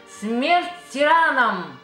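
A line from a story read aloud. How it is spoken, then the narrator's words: Shouting. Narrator (Russian): прокричал я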